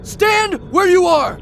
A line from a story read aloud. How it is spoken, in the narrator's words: shouted Johnny